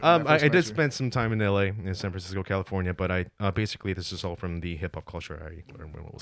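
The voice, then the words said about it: Proper, American-sounding English accent. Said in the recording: “your English accent is so damn fucking proper for for being like not not from an English speaking country ... you were like a, an American ... I did think you were from like L.A.”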